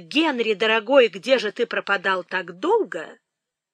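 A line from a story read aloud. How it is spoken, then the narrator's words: Exclaiming. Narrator (Russian): она воскликнула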